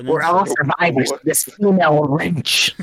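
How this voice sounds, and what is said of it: Mocking incel character voice. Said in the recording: “do an incel impression”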